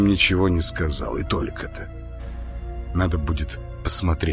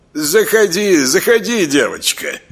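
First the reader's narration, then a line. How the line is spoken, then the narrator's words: Genial booming voice. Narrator (Russian): благодушно прогудел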